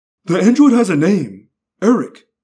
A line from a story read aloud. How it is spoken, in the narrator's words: Rachel snapped